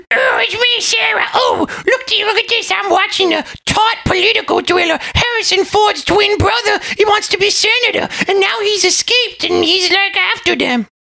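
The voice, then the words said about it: Mocking impression of a woman. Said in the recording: “What's your impersonation of me, huh?”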